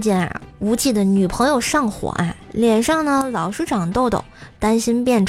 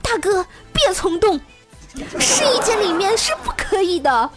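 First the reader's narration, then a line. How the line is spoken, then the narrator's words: Shouting saleswoman. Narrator (Chinese): 导购小姐在喊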